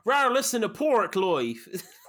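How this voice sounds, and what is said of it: Deliberately bad put-on English accent. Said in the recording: “really bad English accent”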